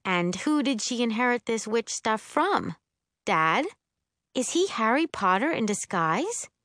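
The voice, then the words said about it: Patronizing tone. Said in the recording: “in my best patronizing voice”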